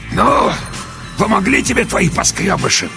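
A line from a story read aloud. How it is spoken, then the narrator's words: Hoarse wheezing. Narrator (Russian): продолжал меж тем хрипеть человек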